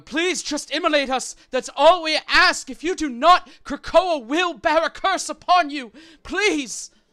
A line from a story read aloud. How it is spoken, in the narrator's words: Scream out